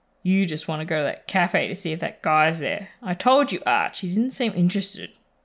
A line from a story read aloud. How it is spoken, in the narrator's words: Ed sighs